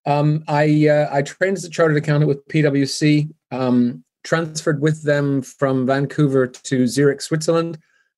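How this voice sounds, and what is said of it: Softened Canadian accent. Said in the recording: “I'm originally from Canada, which explains the funny accent, although I've lived here for many years, so it's kind of softened.”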